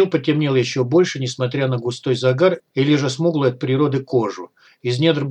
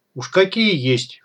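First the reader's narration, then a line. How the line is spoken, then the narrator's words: Snorting. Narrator (Russian): хмыкнул паня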